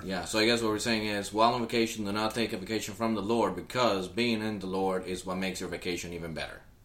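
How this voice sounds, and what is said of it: Strong non-American accent. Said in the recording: “Even though with your accent, no one's going to understand what you said... So try to say it like an American.”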